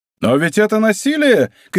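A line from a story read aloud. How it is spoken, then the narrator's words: Group shouting, slight foreign accent. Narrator (Russian): кричали они на очень хорошем французском языке, хотя и с некоторым иностранным акцентом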